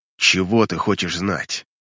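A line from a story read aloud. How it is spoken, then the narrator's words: Mumbling. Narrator (Russian): Тифтам бормочет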